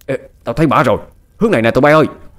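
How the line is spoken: Shouting. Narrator (Vietnamese): Một tên trong số đó hét lên

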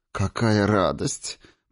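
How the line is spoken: Purring. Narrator (Russian): промурлыкала целительница

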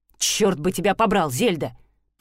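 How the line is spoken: Grumbling. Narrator (Russian): проворчал Себастьян

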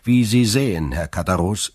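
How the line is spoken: Cold. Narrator (German): sagte Dantès kalt

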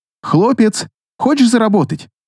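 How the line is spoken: Young woman calling out. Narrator (Russian): окрикнула его девушка

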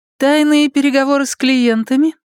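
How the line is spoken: Mocking question. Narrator (Russian): насмешливо спросила Настя

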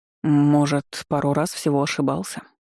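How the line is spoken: Smirking grunt. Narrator (Russian): хмыкнул он

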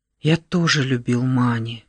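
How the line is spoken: Whispered. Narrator (Russian): шепнул он

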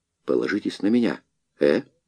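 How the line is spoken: Hoarse rasp. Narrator (Russian): прохрипел

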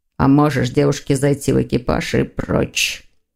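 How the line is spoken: Growl. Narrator (Russian): рыкнул Лефевр

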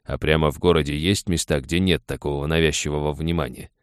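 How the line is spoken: Plain question. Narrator (Russian): спросил он

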